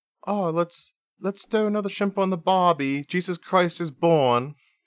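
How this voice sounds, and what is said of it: Attempted Australian accent sounding Cockney. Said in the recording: “That was more like the British, like Cockney. ... it was more of a British accent saying Australian things”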